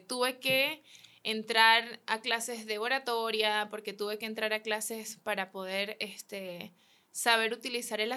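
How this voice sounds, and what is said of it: Venezuelan Spanish accent. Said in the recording (Spanish): “mi acento, como soy de Venezuela”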